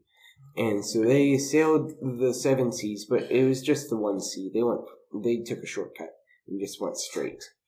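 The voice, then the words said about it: Drunk-sounding Drunk History narration. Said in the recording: “my drunk history impression”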